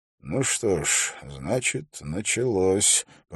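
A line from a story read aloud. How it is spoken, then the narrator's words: Mysterious mutter. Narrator (Russian): пробормотал он загадочно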